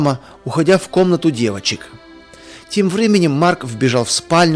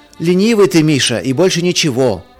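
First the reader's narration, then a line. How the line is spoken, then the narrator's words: Shouting from another room. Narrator (Russian): из ванной крикнул Марк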